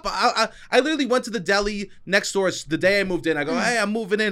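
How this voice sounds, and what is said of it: New York accent. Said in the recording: “I also have a New York accent”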